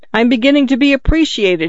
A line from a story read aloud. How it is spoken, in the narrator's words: cried